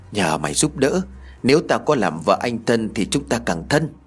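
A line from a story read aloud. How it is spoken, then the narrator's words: Whispering. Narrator (Vietnamese): Huê thì thầm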